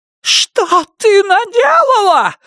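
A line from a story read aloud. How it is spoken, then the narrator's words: Shrieking. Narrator (Russian): завизжала Майра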